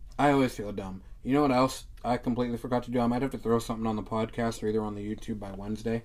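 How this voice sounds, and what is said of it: Usual voice. Nothing is said of it.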